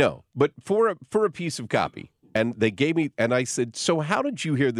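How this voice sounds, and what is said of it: Usual voice. Nothing is said of it.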